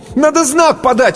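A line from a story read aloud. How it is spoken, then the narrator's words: Boy shouting. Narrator (Russian): крикнул мальчишка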